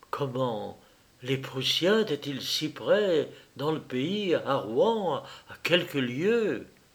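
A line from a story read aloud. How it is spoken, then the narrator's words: Murmuring. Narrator (French): Elle murmura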